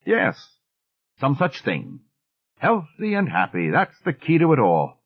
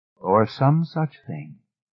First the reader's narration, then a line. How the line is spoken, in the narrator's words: Miss Fellows said dryly